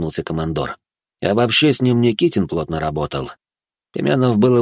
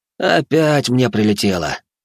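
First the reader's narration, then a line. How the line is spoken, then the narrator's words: Resigned sigh. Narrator (Russian): вздохнул Баженов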